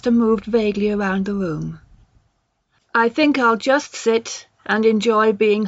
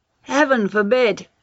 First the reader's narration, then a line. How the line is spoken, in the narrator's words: Lester cried feelingly